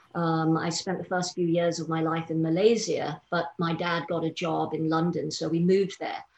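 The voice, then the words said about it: English accent. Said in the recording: “as you can probably tell from my accent, I grew up in England”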